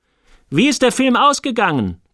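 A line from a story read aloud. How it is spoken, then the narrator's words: Sharp question. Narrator (German): fragte sie scharf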